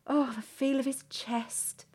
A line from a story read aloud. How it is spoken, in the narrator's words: Victoria sighs